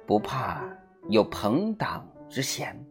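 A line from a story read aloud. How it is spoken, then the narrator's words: Low voice. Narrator (Chinese): 傅以渐低声地说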